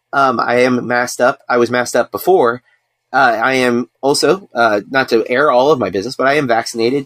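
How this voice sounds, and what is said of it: Slightly off, rough recovering voice. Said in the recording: “I am recovering, so my voice is off.”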